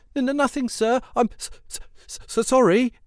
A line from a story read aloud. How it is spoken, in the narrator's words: Richie stammered